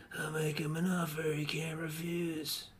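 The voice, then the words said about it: Poor imitation of another person's voice. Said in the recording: “That's a terrible impression... I was doing an impression of Marlon Brando.”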